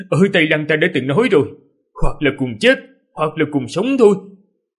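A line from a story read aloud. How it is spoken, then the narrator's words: Loud, shaking with laughter. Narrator (Vietnamese): Ninh Khuyết lại cười, cười đến mức toàn thân run rẩy, lớn tiếng mà nói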